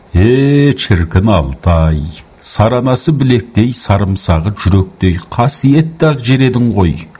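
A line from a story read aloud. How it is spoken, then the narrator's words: Sighing. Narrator (Kazakh): деп күрсінді Жылқайдар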